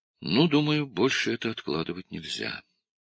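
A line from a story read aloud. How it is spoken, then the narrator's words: Sighing. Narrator (Russian): Джим вздохнул и сказал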